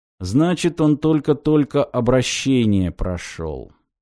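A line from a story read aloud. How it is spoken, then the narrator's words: Grim pronouncement. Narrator (Russian): мрачно изрек Грик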